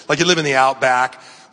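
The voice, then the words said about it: Put-on Australian accent. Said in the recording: “Talk with an awesome accent, you know, like this. Talk like from Australia.”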